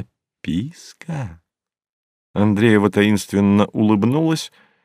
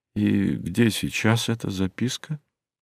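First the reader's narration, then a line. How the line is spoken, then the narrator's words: Quiet, guileless smiling. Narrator (Russian): спросил он тихо, с простодушной улыбкой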